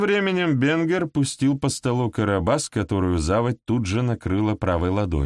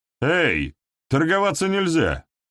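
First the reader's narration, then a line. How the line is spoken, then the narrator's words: Shout. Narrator (Russian): крикнул Чашка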